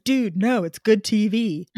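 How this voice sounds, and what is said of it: Impression of Ryan's voice. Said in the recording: “a very good impression of the Ryan voice”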